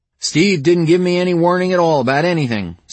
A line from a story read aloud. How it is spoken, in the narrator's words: Scales said